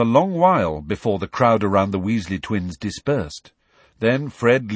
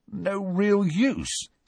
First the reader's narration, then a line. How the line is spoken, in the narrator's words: said Ron in a strained voice